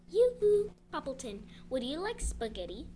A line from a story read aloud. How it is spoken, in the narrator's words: she called out